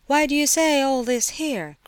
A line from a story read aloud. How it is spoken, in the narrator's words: cried Aglaya suddenly